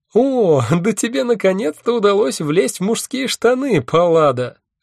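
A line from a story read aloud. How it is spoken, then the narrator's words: Loud laughter. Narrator (Russian): расхохоталась Геката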